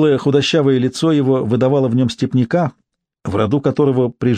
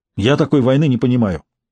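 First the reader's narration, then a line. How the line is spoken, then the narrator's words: Sharp reply. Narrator (Russian): резко ответил Глух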